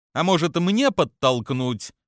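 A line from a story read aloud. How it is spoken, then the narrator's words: Snide question. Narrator (Russian): ехидно спрашивает Лея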